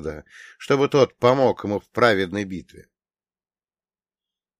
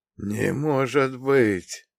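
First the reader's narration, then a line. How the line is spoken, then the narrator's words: Spellbound whisper. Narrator (Russian): прошептал Ваня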